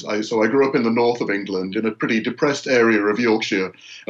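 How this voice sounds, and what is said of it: English accent. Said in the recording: “I grew up in England, as you can probably tell from the accent.”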